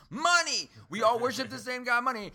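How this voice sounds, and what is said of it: Imitates another person's voice. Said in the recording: “Horrible Chris Rock impersonation.”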